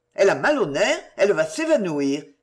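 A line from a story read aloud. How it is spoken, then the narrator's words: Exclaimed. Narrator (French): s'écria Adrien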